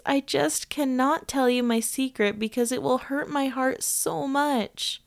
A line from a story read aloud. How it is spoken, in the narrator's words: In her trepidation screamed, yelled, and cried with much remorse